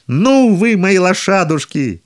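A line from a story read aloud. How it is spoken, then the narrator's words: Joyful shout. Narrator (Russian): А он, от радости, что пашет на роскошной упряжке из пяти лошадей, закричал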